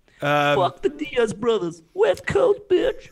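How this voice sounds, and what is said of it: Impression of Mike Perry. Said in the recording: “Who's got a good Perry accent?”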